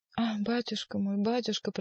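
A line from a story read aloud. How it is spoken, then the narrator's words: Whispered. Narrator (Russian): прошептала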